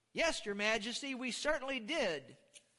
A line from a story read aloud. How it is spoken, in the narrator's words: replied